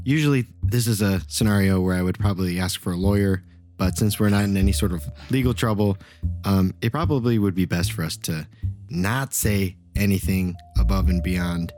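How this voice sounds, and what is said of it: Whispering. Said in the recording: “I'm whispering all this, by the way. ... I know you're whispering, right? I can hear you.”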